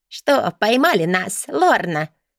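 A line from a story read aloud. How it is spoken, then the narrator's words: Laughing. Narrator (Russian): Смеясь, обратилась она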